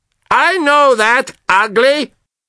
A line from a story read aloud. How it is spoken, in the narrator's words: I shouted to him